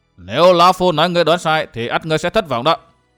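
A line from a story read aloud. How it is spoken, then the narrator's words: Raised voice. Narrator (Vietnamese): Tà Kiếm mặt bỗng biến sắc, lão cao giọng nói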